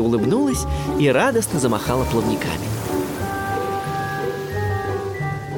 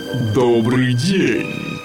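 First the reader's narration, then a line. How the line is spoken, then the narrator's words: Giant's deep bass voice. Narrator (Russian): пробасил великан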